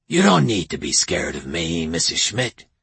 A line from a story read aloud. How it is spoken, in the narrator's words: he said in a near whisper